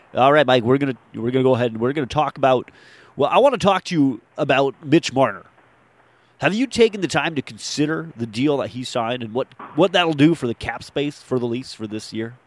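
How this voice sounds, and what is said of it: Put-on radio announcer voice. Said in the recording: “I wanted to work on my radio voice ... That's not a bad radio voice.”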